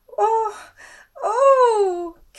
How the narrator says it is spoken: Canter cried at the top of his lungs

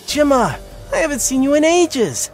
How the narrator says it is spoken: squealed with glee

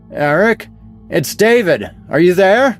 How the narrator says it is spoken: I shouted, trying my best to be heard over the storm

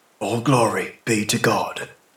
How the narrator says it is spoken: whispered his lips, accustomed to the old formula

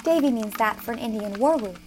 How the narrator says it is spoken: said Diana

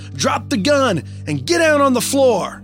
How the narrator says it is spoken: My grandpa's adrenaline is racing as he yells

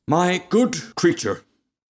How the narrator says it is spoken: cried the rocket in a very haughty tone of voice

